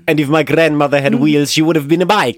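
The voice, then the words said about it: Put-on Italian New York accent. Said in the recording (German): “Woher kam der Italo-New York-Akzent?”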